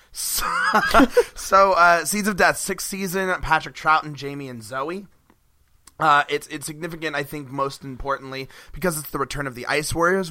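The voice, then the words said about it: Hoarse, strained, nearly lost voice. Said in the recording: “my voice is out. I work a job where I shout sometimes ... You lose your voice”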